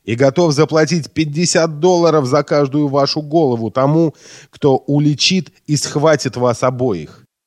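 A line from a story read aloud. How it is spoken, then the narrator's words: Exclaiming. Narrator (Russian): воскликнул он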